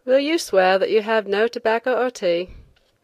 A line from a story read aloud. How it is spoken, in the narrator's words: the inspector asked lazily